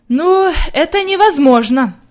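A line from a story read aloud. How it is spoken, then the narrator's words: Grandmother's sigh. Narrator (Russian): вздохнула бабушка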